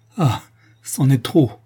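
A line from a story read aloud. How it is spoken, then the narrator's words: Exclaimed. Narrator (French): s'écrie Antonine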